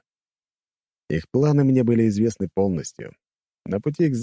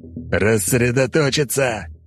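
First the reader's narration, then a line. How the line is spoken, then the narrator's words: Growled command. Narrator (Russian): прорычал Робинс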